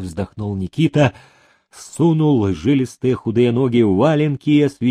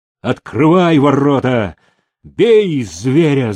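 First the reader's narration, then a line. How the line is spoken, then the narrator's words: Angry shout. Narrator (Russian): злым голосом крикнул Демидов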